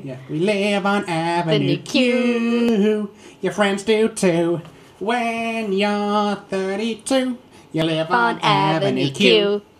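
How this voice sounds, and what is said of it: Nasal silly singing voice. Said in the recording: “That was my impression. ... It was quite good, actually. ... you put on silly voices. ... you just sound a bit nasal”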